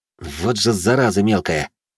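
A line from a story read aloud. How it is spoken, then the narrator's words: Involuntary whisper. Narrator (Russian): сами собой прошептали мои губы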